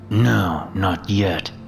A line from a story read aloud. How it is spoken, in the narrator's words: said through gritted teeth